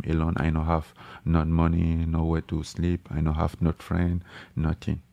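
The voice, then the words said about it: Soft-spoken French accent. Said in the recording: “He's got a soft-spoken French accent”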